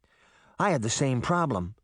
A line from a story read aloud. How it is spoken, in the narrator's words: Sabrina said